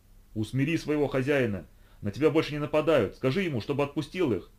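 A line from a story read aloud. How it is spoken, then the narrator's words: Yelling. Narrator (Russian): Орал я ему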